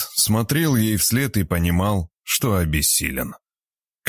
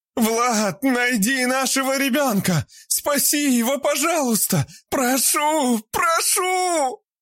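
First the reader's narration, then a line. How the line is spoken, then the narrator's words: Desperate screaming. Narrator (Russian): Орала Вера, когда ее утаскивали в сторону темного подвала оборотни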